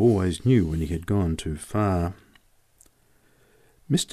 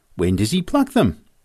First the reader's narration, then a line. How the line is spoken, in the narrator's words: exclaimed